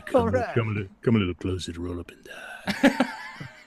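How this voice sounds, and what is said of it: Put-on sexy character voice. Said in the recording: “You have your sexy voice on for it ... It's my Locrious voice.”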